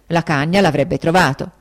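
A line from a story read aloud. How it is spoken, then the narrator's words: Exclaimed. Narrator (Italian): esclamai io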